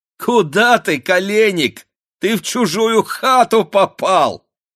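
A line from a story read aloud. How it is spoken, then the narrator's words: Girls shouting with laughter. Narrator (Russian): закричали, смеясь, девушки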